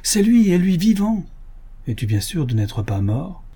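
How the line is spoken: Exclamation. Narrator (French): s'écria-t-on

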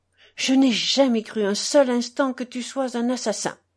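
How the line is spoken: Trembling cry. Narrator (French): s'écria d'une voix tremblante Alyosha

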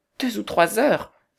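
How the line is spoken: Exclaiming. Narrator (French): s'écria sœur Hélène

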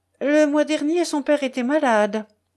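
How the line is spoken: Curt explanation. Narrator (French): expliqua sèchement le prince

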